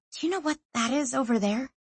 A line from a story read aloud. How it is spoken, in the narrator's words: She whispered